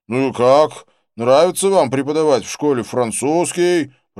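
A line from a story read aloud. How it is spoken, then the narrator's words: Shouted right into ear. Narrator (Russian): прокричал он ему в самое ухо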